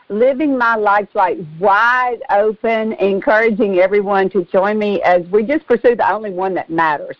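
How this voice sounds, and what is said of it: Southern American accent. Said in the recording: “I'm already loving the Southern accent.”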